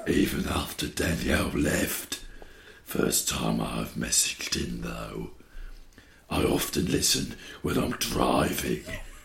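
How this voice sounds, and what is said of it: Deep, sinister character voice. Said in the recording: “It's one of my accents I do. ... Let him be a bit deeper. ... It's suddenly sinister.”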